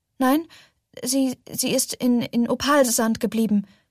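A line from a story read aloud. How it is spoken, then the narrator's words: Stammering. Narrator (German): stammelte Ophelia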